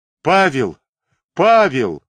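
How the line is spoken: Exclaimed twice. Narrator (Russian): дважды воскликнул Макшеев

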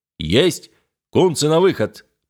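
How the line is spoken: Boatswain's deep bass. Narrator (Russian): пробасил боцман

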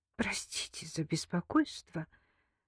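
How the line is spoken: Forced out. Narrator (Russian): выдавила из себя

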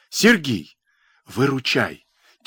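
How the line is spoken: Quiet, into phone. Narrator (Russian): тихо проговорил он в трубку

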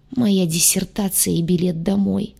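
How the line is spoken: Moan. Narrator (Russian): простонал целитель

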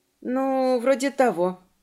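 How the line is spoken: Somewhat uncertain. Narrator (Russian): несколько неуверенно сказала Мелисента

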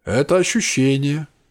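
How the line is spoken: Sad voice. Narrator (Russian): печально произнес голос

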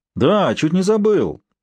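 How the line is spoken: Feigned exclamation, prince. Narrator (Russian): наигранно воскликнул андорский князь

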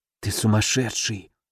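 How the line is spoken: Silently mouthed whisper. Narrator (Russian): одними губами прошептал я

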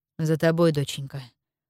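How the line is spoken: Sad confirmation. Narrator (Russian): грустно подтвердил отец

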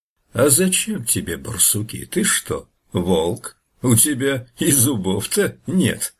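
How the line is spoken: Laughing bear. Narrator (Russian): медведь засмеялся

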